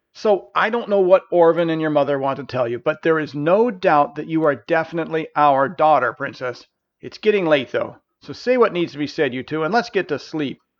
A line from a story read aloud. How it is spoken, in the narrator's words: desperately trying to redirect the conversation and said